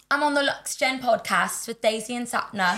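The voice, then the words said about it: Put-on British accent. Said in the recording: “Do your best British accent. ... Yes, that's so good.”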